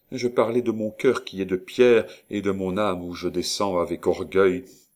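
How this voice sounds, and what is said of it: Icy, cold delivery. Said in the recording (French): “reprit-elle d'un accent glacé”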